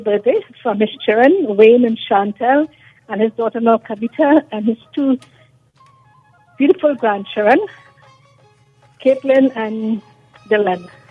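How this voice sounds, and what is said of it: Trinidadian accent. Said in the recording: “as if you have that accent, is it Trini? ... Are you from Trinidad? Yeah”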